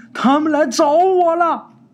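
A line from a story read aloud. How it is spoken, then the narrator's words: Shouted. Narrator (Chinese): 喊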